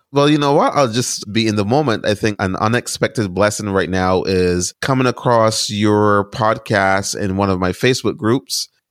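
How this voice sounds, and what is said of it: Caribbean accent. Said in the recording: “So also detect your accent.”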